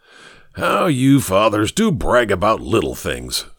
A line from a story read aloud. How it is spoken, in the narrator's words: snorted Ricketts